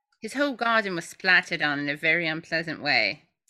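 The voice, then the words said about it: Put-on English accent. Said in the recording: “My English accent is so great.”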